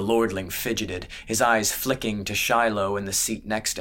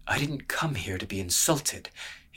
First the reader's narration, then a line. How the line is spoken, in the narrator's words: said under his breath